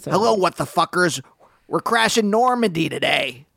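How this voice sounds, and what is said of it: Imitates another person's voice. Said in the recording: “I'm not into Mark Maron in WW2 ... what a great impression ... can kind of do a Marc Maron”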